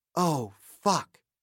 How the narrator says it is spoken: she said quietly

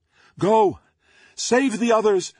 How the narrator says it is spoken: Doom Maiden shouted

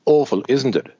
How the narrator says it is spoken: says another one

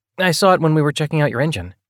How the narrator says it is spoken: he added quickly

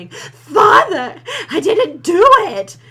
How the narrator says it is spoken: Crouch, a mere 19-year-old, screaming

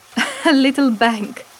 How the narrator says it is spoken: said Layla, laughing

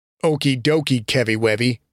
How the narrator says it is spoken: Bobby said with a sneer

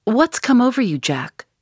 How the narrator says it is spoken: cried

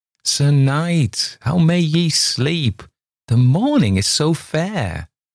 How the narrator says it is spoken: called to him gaily

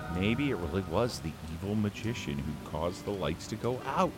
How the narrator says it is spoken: Daisy whispered

